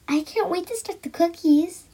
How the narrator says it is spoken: said excitedly

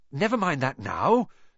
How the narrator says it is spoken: said Harry, breathlessly

